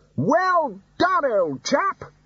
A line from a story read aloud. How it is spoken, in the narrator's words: shouted Ridcully across the water